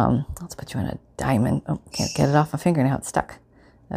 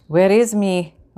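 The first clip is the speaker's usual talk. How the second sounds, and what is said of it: Bad attempt at Irish accent. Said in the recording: “Here comes the really bad Irish accent... Oh no, that doesn't sound Irish at all.”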